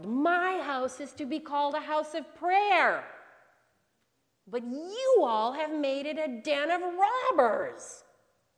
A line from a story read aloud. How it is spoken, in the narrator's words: fairly yelled